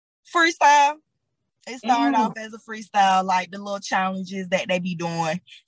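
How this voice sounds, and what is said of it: Georgia Atlanta Southern accent. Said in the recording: “I hear accent, girl, you're from Georgia too. You're from Atlanta.”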